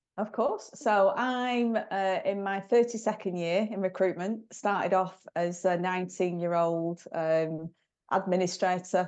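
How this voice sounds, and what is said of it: Bolton northern English accent. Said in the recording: “From Bolton, as you can probably tell from my accent, Peter Kay Land”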